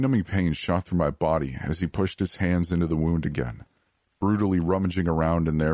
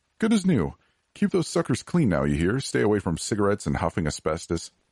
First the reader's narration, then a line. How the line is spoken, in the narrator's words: he laughed